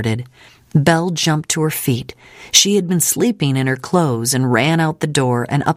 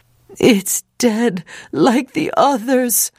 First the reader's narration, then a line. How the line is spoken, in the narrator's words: Moses wailed